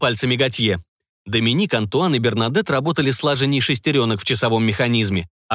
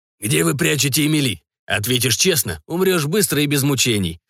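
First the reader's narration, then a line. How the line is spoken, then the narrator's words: Hoarse rasp. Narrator (Russian): прохрипел Готье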